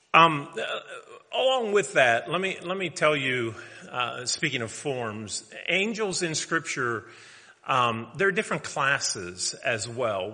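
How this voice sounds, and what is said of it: Hoarse voice. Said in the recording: “I don't ever get, hoarse in my throat, but I do here for some reason.”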